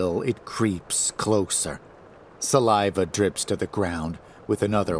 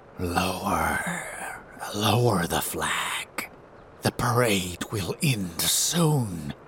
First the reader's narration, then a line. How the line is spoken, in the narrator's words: the abomination whispers